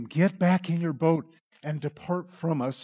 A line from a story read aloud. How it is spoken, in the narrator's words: they begged him